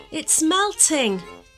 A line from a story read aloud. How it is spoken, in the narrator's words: cried Mia, not quite believing her luck